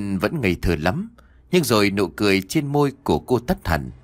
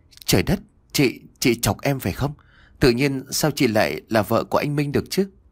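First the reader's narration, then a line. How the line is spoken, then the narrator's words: Stammering in shock. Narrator (Vietnamese): Cô trợn trừng mắt rồi lắp bắp nói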